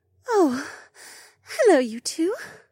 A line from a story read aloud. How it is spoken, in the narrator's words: she sighed